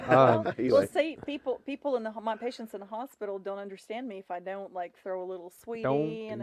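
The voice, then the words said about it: Russian accent with slight Southern twang. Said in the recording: “accent that, you know, has some Russian and then it has the little southern twang”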